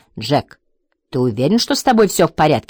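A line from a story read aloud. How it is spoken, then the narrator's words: Plain. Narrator (Russian): спросила Лесли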